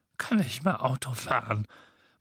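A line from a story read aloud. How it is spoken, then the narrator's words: Indignant muttering to himself. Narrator (German): murmelte er vor sich hin, und sein Schnurrbart zitterte entrüstet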